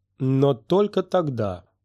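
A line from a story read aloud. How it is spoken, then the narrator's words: Angry. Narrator (Russian): зло ответила она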